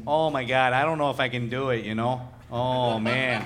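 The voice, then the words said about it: Put-on flattened Great Lakes accent. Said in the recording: “that accent... It's like the Great Lakes area and parts of like Buffalo, New York, and some Canada... Is like just that sort of flattened... It's pretty good”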